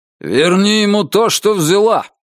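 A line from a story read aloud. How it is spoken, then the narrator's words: Loud bark, close. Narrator (Russian): рявкнул он ей в ухо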